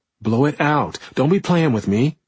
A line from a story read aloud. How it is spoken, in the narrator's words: Arlene snapped